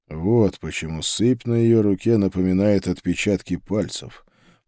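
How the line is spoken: Muttering. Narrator (Russian): пробормотал

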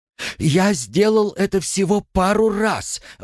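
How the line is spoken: Squealed. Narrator (Russian): взвизгнул Артам

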